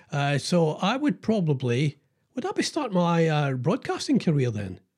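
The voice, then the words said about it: Scottish accent. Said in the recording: “they needed a Scottish accent.”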